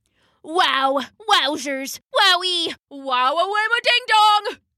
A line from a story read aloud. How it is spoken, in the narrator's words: he gasped